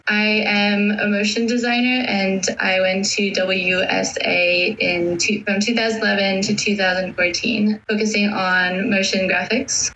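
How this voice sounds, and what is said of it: French-American accent. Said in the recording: “I am French and American, so that is why I have this accent.”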